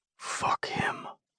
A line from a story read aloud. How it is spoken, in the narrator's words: he mumbles